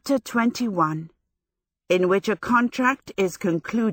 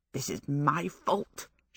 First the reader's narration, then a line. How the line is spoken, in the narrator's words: she muttered